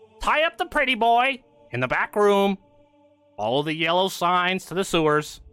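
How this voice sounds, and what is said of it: Thin, nasally character voice. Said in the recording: “in like a thin, nasally voice”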